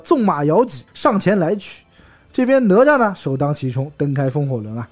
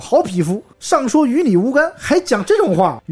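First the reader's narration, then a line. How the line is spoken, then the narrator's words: Furious. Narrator (Chinese): 大怒道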